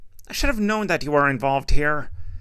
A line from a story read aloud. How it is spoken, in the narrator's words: Coordinator Taranda shouted over the engines